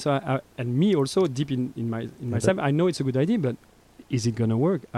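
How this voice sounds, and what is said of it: Belgian accent. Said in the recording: “I'm a Belgian guy. I'm like, with my accent, people think I'm arrogant.”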